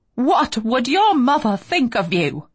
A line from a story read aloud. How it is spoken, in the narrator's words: She snaps